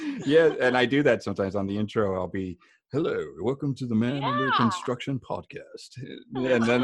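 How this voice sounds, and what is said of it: Usual voice. Nothing is said of it.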